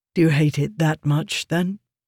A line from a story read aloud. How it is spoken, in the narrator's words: Nell Shendon asked